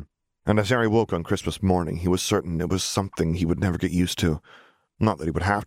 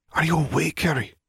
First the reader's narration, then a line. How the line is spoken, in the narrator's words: Charles whispered